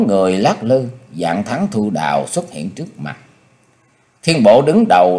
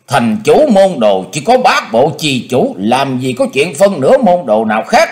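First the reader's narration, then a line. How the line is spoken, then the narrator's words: Barked. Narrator (Vietnamese): Dạng Thắng quát lên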